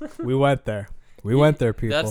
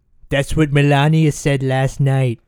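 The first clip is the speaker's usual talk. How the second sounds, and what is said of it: Donald Trump impression with a lisp. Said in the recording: “That's like really good Trump, but even more of, you made him have more of a lisp. ... I apologize for my Trump. ... that impression. It was really bad”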